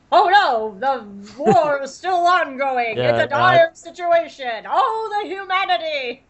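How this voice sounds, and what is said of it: Old 1920s newsreel narrator voice. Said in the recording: “sound like a 1920s like Hindenburg ... talk in the back of your voice like this”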